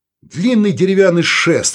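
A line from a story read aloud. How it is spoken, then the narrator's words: Irritated. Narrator (Russian): раздраженно сказал Саул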